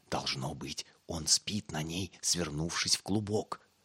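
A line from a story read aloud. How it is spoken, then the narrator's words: Whisper. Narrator (Russian): прошептал Пип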